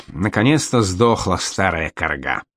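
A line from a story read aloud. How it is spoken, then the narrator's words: Satisfied mutter. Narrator (Russian): Генрих довольно буркнул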